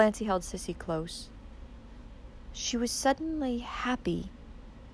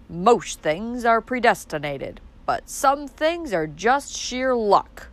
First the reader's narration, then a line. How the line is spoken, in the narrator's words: said Roaring Abel, complacently smoking his pipe